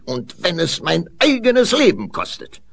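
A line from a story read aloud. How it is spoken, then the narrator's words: Calling out. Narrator (German): rief sie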